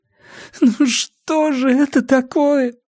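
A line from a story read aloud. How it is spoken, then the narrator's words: Moaning. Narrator (Russian): стонала она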